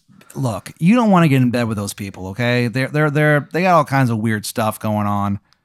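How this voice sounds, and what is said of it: Character voice, grating Maryland accent. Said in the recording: “just how upsetting this Maryland accent is to you. Like, you hear it. You think about, like, empires falling.”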